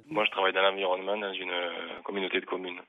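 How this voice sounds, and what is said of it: Sleepy, low, sensual-sounding voice. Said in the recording (French): “Vous avez un bel accent, mais j'ai l'impression que vous vous réveillez, là ... il y a quand même une voix sensuelle ... Une voix qui fait penser un peu Eric Cantona”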